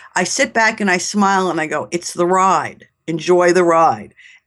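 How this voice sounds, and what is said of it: New York accent. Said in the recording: “if you can't tell from my accent, I'm a New Yorker.”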